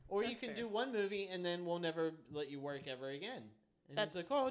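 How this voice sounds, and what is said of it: Usual voice. Nothing is said of it.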